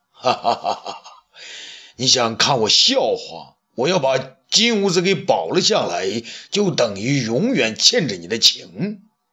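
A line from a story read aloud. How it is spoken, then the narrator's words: Hearty laughter. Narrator (Chinese): 武帝大笑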